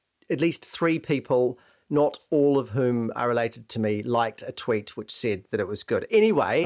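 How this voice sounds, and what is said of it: Usual voice. Nothing is said of it.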